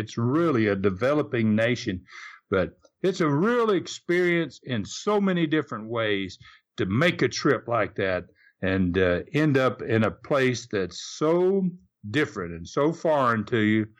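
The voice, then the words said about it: Southern US accent. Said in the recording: “I've got this Southern accent, being a Southern boy”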